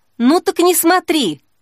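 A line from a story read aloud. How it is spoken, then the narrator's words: Snapping retort. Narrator (Russian): огрызнулась Снежка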